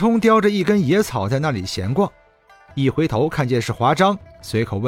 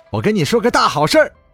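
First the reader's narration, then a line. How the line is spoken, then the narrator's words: Loud. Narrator (Chinese): 华章大声说道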